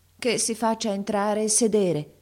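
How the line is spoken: Plain. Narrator (Italian): disse il re

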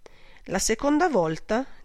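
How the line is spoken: Flat toneless voice. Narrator (Italian): disse con voce bianca

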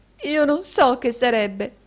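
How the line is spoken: Sobbing. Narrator (Italian): singhiozzò la signorina Squeers

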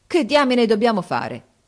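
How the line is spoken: Exclaiming. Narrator (Italian): esclamò Harris

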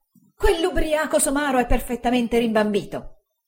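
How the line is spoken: Exclamation. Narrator (Italian): esclamò Uriah

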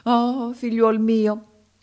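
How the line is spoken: Sorcerer exclaiming. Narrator (Italian): esclamò il mago africano

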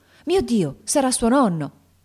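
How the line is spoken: Exclaiming. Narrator (Italian): esclamando

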